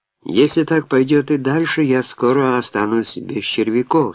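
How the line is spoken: Plain. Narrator (Russian): сказал Ди Кристо

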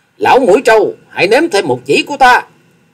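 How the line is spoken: Elated thunderous shout. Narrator (Vietnamese): Hoa Sĩ Kiệt càng phấn chấn tinh thần, thét lên rồi tiếng thét vang như sấm

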